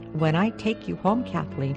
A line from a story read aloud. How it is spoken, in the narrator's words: he said